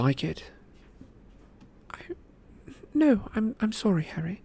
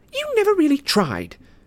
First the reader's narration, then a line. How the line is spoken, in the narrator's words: said hotly